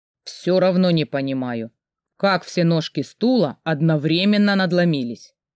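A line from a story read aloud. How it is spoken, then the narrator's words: Suspicious grumble. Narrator (Russian): подозрительно проворчал папа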